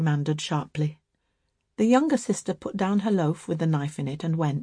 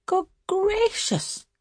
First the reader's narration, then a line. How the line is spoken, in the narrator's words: exclaimed Bertha